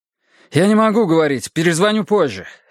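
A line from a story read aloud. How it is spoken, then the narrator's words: Barked. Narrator (Russian): рявкнул я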